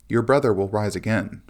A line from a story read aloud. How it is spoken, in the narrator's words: says Jesus